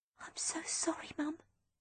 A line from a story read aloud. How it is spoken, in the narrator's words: I whispered